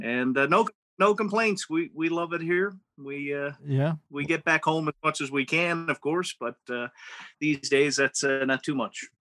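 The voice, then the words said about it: Newfoundland accent. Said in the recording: “that's not a Calgary accent. ... I'm originally from Torbay, Newfoundland.”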